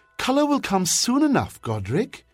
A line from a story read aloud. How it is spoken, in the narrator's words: a woman's voice trilled happily